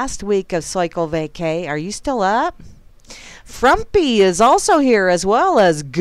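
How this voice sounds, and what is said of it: Usual voice. Nothing is said of it.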